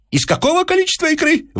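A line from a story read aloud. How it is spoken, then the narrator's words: Furious shout. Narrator (Russian): вновь взбеленясь закричал Персиков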